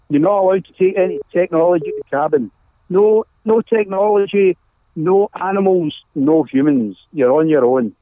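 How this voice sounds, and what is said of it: Scottish accent. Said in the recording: “you have an awesome accent ... this is pure Scot. This is a pure Scotsman.”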